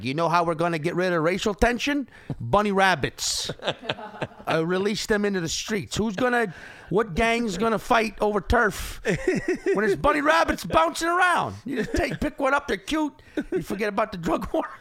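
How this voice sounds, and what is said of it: Exaggerated put-on Chicago accent. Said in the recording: “This is a terrible Chicago accent... It's not that bad.”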